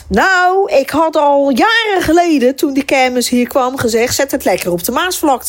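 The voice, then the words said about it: Broad Rotterdam Dutch accent. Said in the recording (Dutch): “een familie waar echt heel plat Rotterdams wordt gesproken. Mijn tante Hanny”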